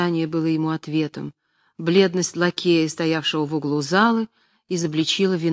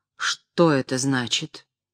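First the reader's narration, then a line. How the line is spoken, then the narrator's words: Menacing question. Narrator (Russian): он грозно спросил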